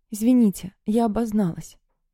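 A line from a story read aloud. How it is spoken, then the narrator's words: Hoarse faltering voice. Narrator (Russian): севшим голосом сказала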